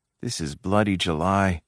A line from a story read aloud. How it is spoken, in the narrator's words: she muttered